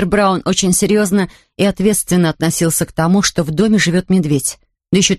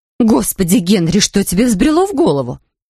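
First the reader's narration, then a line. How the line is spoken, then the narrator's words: Exclaimed. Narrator (Russian): воскликнула миссис Браун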